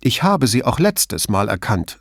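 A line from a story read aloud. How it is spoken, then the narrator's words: Irritated but not angry. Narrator (German): sagte sie ungehalten, aber nicht wütend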